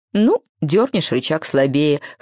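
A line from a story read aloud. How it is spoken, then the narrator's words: Young beaver's snort. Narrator (Russian): хмыкнул бобренок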